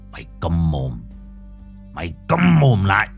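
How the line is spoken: Harsh, clenched voice. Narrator (Vietnamese): Thằng Nhân gằn giọng

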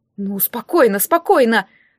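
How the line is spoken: Confused mumbling. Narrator (Russian): растерянно забормотал Доминико

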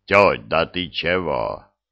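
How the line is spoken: Booming bass voice. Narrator (Russian): прогудел чей-то бас

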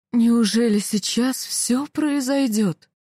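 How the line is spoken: Muffled, strained voice. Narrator (Russian): Ее голос звучал глухо и надрывно

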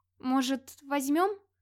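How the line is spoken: Uncertain suggestion. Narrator (Russian): неуверенно предложила Рагнагейда

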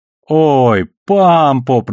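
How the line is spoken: Drawn out. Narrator (Russian): протянул его сосед

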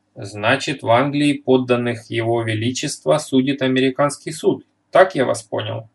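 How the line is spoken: Plain. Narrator (Russian): спросил редактор

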